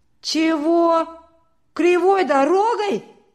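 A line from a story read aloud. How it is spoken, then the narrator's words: Loud indignation. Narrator (Russian): Громко возмутился Петька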